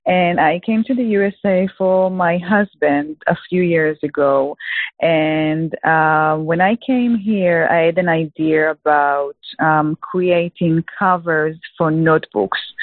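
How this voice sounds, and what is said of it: Israeli-accented English. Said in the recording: “I'm originally from Israel. As you can hear, I do not have a Texas accent.”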